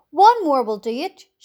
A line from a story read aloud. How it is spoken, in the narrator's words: shouted the old green grasshopper